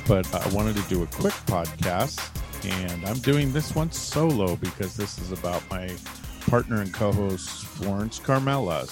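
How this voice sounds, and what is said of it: Strained, worn-out voice. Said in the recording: “My voice is a little bit beat up”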